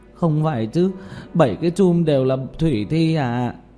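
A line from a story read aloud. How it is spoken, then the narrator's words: Trembling with fear. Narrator (Vietnamese): Tiểu Mã run rẩy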